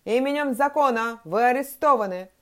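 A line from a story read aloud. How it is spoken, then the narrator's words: Officer shouting while running. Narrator (Russian): закричал на бегу офицер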